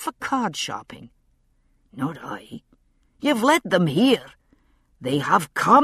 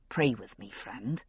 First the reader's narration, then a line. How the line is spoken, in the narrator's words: he said quietly